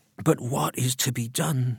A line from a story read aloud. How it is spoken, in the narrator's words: muttered Mrs